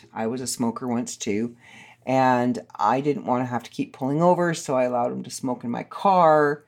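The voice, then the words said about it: Scratchy, slightly raw voice. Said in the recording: “my voice is starting to get a little scratchy now ... my throat is a little raw”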